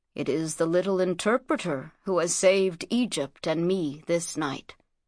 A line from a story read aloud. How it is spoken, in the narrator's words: said Thutmose, in the gentlest tone she had ever heard him use